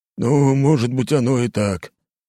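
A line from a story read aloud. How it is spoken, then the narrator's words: Reply with deep sigh. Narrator (Russian): ответил Потапов и глубоко вздохнул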